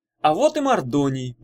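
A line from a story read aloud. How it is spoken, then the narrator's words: Exclaimed. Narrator (Russian): воскликнул Иван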